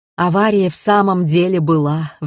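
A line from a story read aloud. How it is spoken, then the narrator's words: Sighing. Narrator (Russian): вздохнула Пелагея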